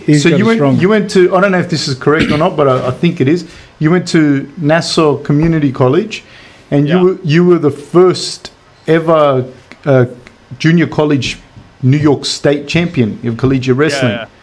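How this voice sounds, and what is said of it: Australian accent. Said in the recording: “Your Australian accent”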